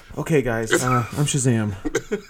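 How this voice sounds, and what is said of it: Imitates another person's voice. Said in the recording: “That's a good impression ... Pretty good ... Shout out Chuck”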